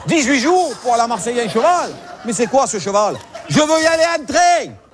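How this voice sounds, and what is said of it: Marseille southern French accent. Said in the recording (French): “cet accent, il te pagnolise tout”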